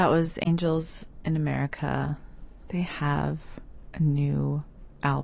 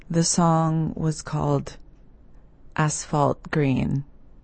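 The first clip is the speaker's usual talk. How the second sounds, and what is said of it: Flat monotone delivery. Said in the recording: “switch to a monotone voice. I will do everything possible to speak only in monotone.”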